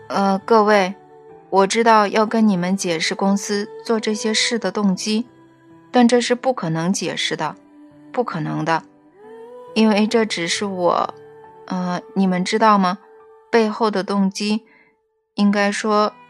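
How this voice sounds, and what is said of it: Hesitant, quiet speaking voice. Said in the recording (Chinese): “有点犹豫的小声说”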